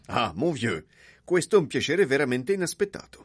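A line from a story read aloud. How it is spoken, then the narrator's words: Exclaiming voice from behind. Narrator (Italian): una voce dietro di lui esclamava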